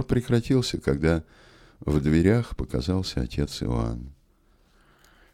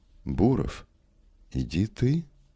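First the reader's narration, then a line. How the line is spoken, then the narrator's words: Plain. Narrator (Russian): сказал отец Иоанн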